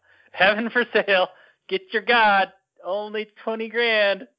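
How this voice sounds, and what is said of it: Charlatan salesman pitch voice. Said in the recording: “You sound like a charlatan.”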